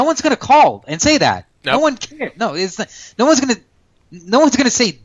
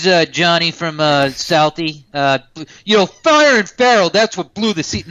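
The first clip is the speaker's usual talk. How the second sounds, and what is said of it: Put-on South Boston accent, uneven. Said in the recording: “that was not my best Southie impersonation ... It was not ... I kind of had a Rhode Island guy in me, and then I went Southie”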